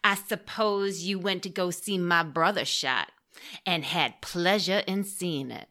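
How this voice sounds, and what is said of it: Puts on an accent. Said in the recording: “I especially like that accent work.”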